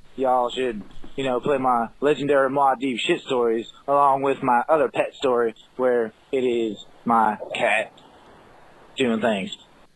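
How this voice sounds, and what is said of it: Put-on Southern, North Florida accent. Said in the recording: “I feel like he's putting on a weird like. It's kind of like Kid Rock, kind of getting really southern. ... like Kid Rock trying to do an Elvis thing ... He's getting North Florida on us right now. ... Jacksonville accent”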